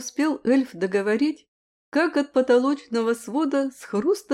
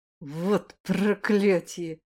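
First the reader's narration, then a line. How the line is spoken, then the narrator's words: Hissed through teeth. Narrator (Russian): прошипел я сквозь зубы после отборного мата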